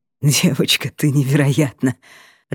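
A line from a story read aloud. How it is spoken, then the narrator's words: Laughing loudly. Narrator (Russian): Расхохотался Креас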